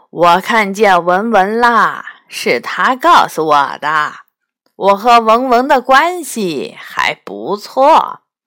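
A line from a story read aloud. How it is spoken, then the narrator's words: Amused after long laughter. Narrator (Chinese): 大蜘蛛笑了，他笑了半天才停下来说道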